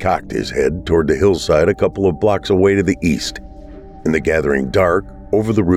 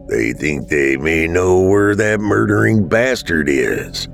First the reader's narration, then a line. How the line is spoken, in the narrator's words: Dad growled